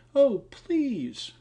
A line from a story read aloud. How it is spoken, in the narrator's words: cried the girl